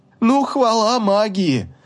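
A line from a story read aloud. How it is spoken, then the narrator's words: Near-hysterical laughter. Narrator (Russian): расхохоталась, почти подаваясь истерике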